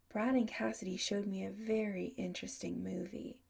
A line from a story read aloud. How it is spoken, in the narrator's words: Adam said, his voice low and husky